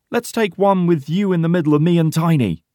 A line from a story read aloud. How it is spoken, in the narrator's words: shouts Porter with a big smile